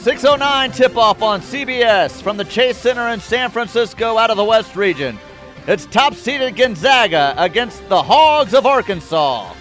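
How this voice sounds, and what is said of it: Sports announcer voice. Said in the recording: “I love your announcer voice.”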